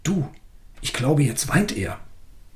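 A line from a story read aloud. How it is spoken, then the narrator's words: Quiet, agitated. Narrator (German): aufgeregt, und leise sagte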